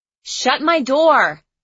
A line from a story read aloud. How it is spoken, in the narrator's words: I yelled after him